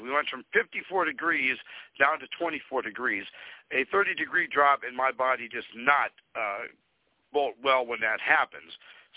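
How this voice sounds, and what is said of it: Nasal, pinched voice from cold. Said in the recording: “My voice sounds worse than it usually is. I am suffering a cold ... if I sound a little nasally and pinched, it's because I have a cold”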